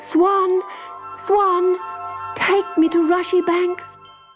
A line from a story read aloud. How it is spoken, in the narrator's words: poor little Susan stretched out her arms and cried